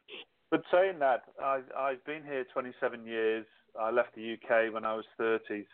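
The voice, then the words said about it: English accent with Australian influence. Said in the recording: “my Aussish accent... I'm not an actual born Australian... I'm too English to be Australian, but I'm still too Australian”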